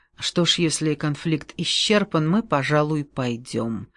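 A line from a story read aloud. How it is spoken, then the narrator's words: Serious tone. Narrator (Russian): спросил Гольдшлюссель и снова совершенно серьезным тоном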